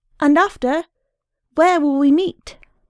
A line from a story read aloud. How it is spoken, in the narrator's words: Linehan called out